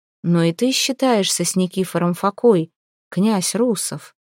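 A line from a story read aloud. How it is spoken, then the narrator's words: Calm reply. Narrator (Russian): спокойно ответил Борис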